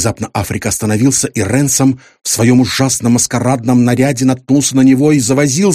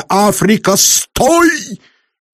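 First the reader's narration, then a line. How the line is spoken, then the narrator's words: Shout. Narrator (Russian): крикнул я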